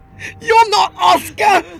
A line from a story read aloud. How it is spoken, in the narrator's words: Arthur screamed with every ounce of willpower he had left